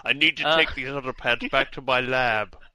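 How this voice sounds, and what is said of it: Imitates a TV character's voice. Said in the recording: “that your Walter impression? ... Yeah, that's my Walter impression. ... It's really good. It's really good.”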